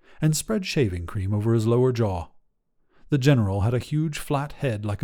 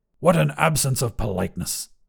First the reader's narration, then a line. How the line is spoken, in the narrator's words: grumbled